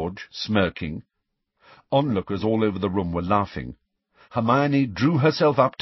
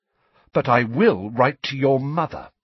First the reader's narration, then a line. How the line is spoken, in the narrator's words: she said, her voice quivering with anger